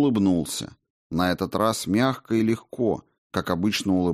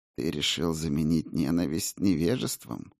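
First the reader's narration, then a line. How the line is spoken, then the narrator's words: Gentle asking. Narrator (Russian): ласково поинтересовался монах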